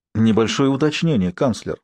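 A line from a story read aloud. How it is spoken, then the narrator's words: Plain. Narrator (Russian): сказал Сварог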